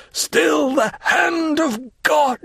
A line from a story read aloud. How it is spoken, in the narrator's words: a piercing cry escaped from his breast, and he cried